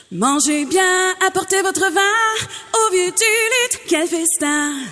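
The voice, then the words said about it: Imitation of a radio jingle. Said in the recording (French): “une excellente imitation”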